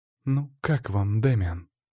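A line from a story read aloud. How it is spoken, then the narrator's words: Quiet question. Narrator (Russian): тихо спросила Елена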